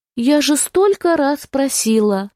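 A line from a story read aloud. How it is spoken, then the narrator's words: Sigh. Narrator (Russian): вздохнула Констанция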